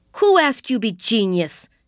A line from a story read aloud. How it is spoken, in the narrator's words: She shouted